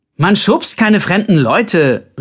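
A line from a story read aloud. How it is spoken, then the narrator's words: Calling after. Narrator (German): rief Colbert ihm hinterher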